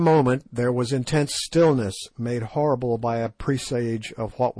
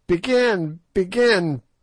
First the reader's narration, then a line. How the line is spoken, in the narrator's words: piped Gagool in her thin, piercing voice